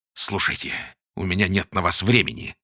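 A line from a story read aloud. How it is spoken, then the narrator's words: Hissing. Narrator (Russian): зашипел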